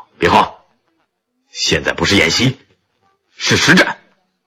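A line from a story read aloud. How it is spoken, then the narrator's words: Cold barked command. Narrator (Chinese): 徐参谋冷冷喝道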